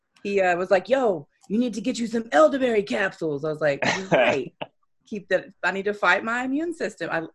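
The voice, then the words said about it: Imitated East Coast accent. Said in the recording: “he has that East Coast accent, so I have to go into Headcrack mode”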